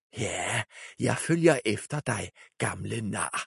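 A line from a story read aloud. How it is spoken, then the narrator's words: Whisper. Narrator (Danish): hviskede hun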